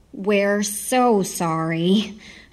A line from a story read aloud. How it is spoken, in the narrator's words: Heidi said, deferring in her southern drawl